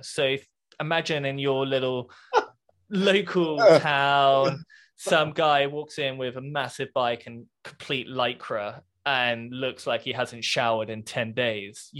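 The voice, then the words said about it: British accent. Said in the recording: “I have a British accent.”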